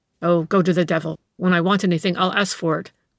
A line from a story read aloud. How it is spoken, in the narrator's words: growled the detective, this time effectively scaring the waiter